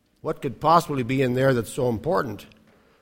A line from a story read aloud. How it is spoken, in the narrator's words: asks St